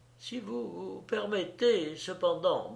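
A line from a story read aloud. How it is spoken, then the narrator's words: Stammering. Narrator (French): balbutia Margarido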